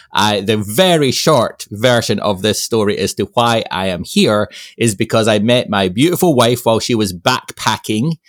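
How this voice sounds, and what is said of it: Scottish accent, not American. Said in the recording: “that's not an Ohio accent ... why you sound so eloquent ... I was born and raised in Scotland”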